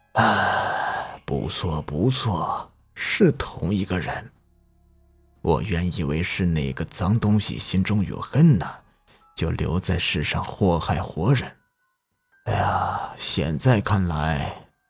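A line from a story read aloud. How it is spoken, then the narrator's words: Heavy sigh, mournful voice. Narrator (Chinese): 重重的叹了口气，声音悲凉的说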